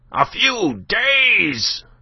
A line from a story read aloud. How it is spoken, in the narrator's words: cried Binet